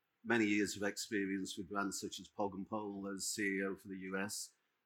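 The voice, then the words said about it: English accent. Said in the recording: “You probably guessed from my accent, I am English”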